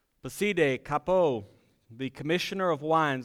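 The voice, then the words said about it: Put-on French accent. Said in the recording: “That was, by the way, my best French voice, if you didn't pick up on that accent there.”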